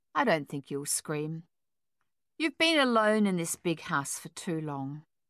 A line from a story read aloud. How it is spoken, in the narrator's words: continued smoothly, calmly